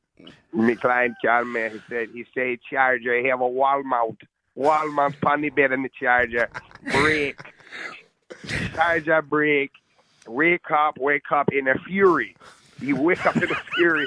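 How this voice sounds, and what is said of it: Put-on Jamaican accent. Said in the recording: “all the words he can say well in a Jamaican ... It's the greatest accent.”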